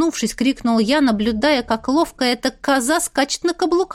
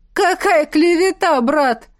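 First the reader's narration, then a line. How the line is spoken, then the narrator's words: Giggling spectator. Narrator (Russian): хихикнул один из зрителей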